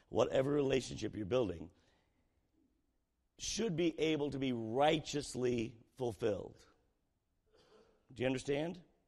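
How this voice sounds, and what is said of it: Strained, failing hoarse voice. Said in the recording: “my voice is just going”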